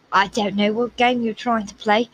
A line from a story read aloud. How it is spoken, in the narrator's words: McClendon said, snarled